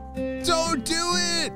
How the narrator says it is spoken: shouted

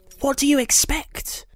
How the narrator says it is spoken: Ella hissed

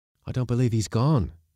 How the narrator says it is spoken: said the mate, panting with his exertions

